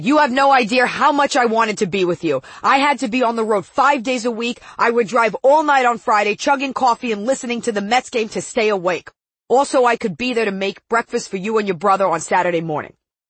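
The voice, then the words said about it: Put-on Long Island accent. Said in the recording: “my Long Island accent”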